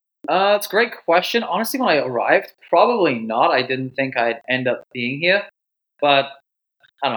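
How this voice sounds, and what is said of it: Foreign-sounding accent. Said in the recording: “we all love your accent... People tell me that I'm from Boston.”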